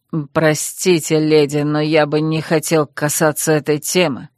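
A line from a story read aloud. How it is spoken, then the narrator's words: Husky voice. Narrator (Russian): произнес он сипло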